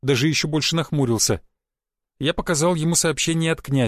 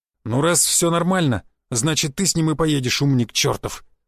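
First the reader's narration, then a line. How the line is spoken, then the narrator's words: Sharp, through clenched teeth. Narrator (Russian): резко процедил Гвоздев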